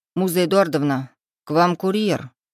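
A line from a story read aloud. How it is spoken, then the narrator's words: Displeased declaration. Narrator (Russian): недовольным голосом заявил Витя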